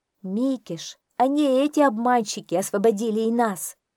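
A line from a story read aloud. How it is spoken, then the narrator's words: Emboldened princesses shouting together. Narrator (Russian): закричали две другие принцессы, которым присутствие Микиша придало смелости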